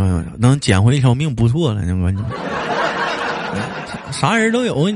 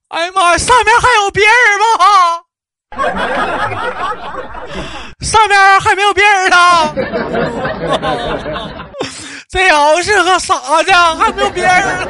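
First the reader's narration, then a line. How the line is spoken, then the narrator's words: Loud shout after hesitation. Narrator (Chinese): 犹豫了一下，紧接又大声的喊道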